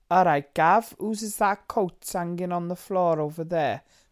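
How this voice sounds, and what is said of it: Attempted South Wales accent. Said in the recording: “I can't do South Wales ... South Wales ... Cardiff way ... I think we're getting there ... We're there ish ... I can hear it”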